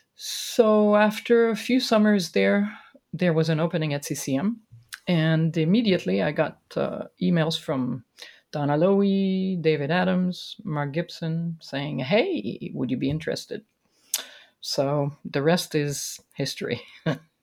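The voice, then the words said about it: Musical, accented speaking voice. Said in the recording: “the music in your speaking voice. From whence does this very musical voice come? What part of the world?”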